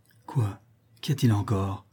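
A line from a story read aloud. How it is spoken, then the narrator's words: Weak voice. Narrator (French): demanda Vergeau d'une voix faible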